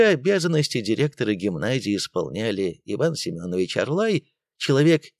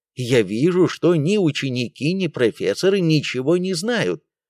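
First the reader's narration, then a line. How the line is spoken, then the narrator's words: Angry exclamation. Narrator (Russian): Выйдя из себя, Белоусов воскликнул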